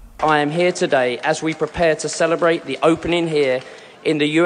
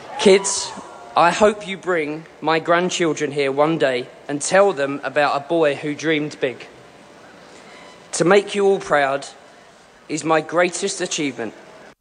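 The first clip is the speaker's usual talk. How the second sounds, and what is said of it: Emotional, choked-up speech. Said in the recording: “I'm going to get emotional now.”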